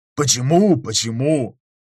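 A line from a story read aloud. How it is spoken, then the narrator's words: Grumbled. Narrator (Russian): буркнул Готар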